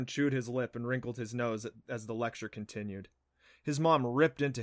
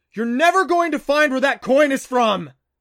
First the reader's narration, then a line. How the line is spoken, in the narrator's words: he bellowed